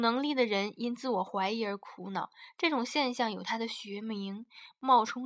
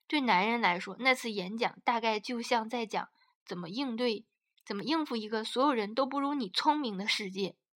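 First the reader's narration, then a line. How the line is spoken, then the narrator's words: Joking. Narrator (Chinese): 卡利和我开玩笑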